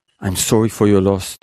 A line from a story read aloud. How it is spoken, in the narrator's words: Deborah says in a shaky voice